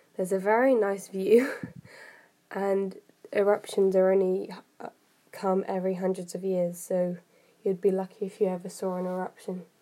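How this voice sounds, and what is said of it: Sore voice from a cold. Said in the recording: “I've got a cold and my voice really hurts, so I'm sorry if you can't understand what I'm saying.”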